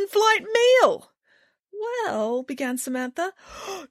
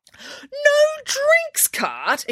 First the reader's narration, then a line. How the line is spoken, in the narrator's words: exclaimed a horrified Nanny Piggins